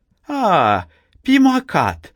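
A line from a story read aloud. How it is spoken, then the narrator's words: Old woman exclaiming. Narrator (Russian): воскликнула старуха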